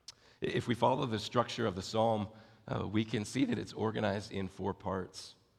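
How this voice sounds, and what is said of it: Raspy, hoarse voice. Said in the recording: “I apologize for my voice this morning. It sounds worse than it really is. I feel fine, but it's just raspy”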